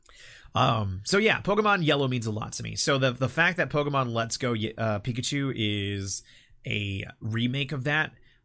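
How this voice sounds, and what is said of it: Voice affected by a cold. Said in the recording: “Apparently, I'm still getting over my cold, so please excuse my voice.”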